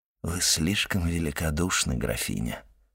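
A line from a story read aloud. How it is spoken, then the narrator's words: Unusually soft, respectful. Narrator (Russian): сказал необычайно мягко и почтительно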